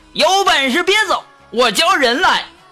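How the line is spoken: Loud shout. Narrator (Chinese): 这厮走的时候大喊

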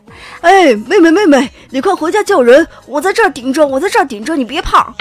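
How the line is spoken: Boy shouting loudly. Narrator (Chinese): 邻居家比我大几个月的大哥，冲我大声的喊

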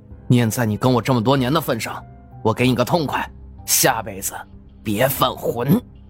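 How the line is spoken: Cold voice. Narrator (Chinese): 张立军声音冰冷

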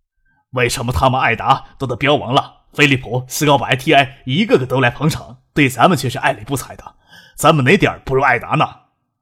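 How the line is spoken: Loud complaining. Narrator (Chinese): 谢真忍不住大声抱怨

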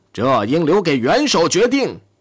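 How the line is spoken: Shouting. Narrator (Chinese): 里宾特洛夫喊道

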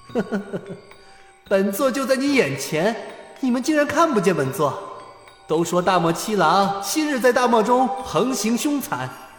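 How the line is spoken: Cold laughter. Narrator (Chinese): 又是一阵冷笑过后

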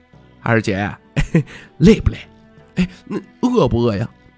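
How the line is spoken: Fawning, smiling. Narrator (Chinese): 徐凤年笑脸谄媚道

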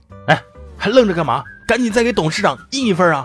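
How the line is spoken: Roaring. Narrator (Chinese): 我们领导忍不住冲着我吼了一嗓子

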